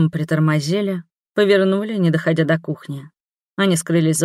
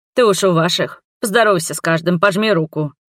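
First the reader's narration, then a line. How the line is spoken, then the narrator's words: Admonishing, then chuckling. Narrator (Russian): Увещевал Врен и хохотнул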